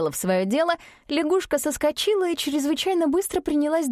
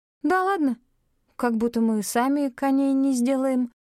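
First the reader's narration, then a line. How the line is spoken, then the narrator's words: Hesitant objection. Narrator (Russian): неуверенно возразила Мин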